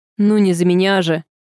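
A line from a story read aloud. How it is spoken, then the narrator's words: Laughing. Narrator (Russian): Он рассмеялся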